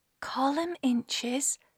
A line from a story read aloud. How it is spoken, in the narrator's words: muttered Miss Penipause